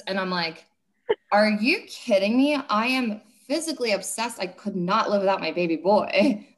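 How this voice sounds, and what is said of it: Loud, emphatic speaking. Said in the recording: “saying this loudly like this”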